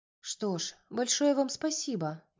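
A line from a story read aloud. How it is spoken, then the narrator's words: Soft. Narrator (Russian): мягко сказала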